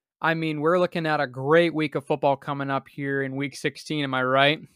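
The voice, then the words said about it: Sarcastic delivery. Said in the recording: “Boy, that was sarcasm.”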